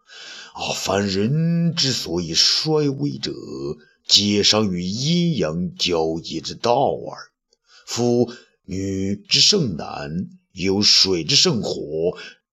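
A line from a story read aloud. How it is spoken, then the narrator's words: Smiling murmur. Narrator (Chinese): 他向东方朔呢宛然一笑，口中喃喃说道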